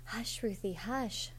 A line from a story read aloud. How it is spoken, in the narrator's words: Joseph begged her